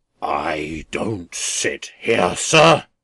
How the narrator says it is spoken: returned the philanthropist, raising his voice to a roar

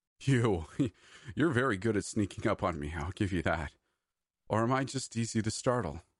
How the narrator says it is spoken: stammered breathlessly

